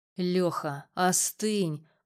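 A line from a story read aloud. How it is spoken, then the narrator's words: Hoarse rasp. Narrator (Russian): прохрипел с дивана Макс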